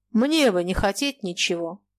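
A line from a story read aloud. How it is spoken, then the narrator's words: Dry laugh, then speaking. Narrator (Russian): Фома сухо засмеялся и сказал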